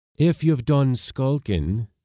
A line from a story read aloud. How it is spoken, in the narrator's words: cried